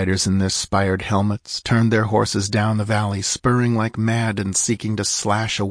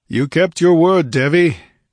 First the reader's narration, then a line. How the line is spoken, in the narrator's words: he roared